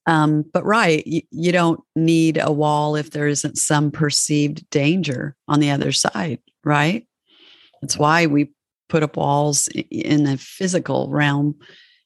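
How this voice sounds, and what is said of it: Weak, sore-throated voice. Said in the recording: “my voice isn't very strong today... Got a bit of a sore throat.”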